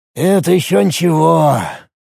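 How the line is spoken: Sighing. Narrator (Russian): вздохнул Рифат

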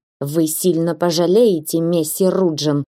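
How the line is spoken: Moneylender's hiss. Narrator (Russian): прошипел ростовщик

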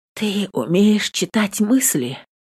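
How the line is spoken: Hoarse question. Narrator (Russian): сипло спрашиваю

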